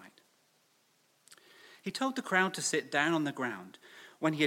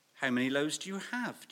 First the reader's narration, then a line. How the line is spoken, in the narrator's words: Jesus asked